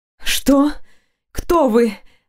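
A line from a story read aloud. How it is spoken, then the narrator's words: Frightened breathless voice. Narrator (Russian): выдохнула, пытаясь унять страх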